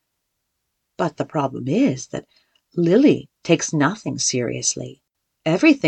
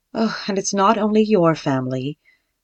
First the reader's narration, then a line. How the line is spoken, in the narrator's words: sighed Florizon